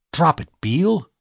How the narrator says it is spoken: I whispered hotly

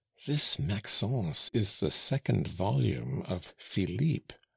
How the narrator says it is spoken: whispered Joseph in his mother's ear

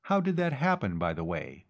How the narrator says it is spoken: Khan asked

